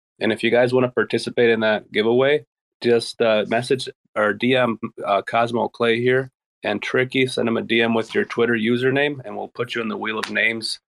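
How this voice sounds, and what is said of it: Slightly raspy voice. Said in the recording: “my voice is a little raspy. I'm kind of sick.”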